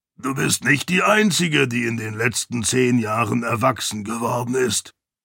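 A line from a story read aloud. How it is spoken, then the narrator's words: Croaking. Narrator (German): krächzte Kiin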